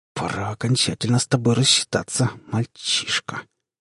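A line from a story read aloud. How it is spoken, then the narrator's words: Creature's malicious hiss. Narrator (Russian): злобно прошипело существо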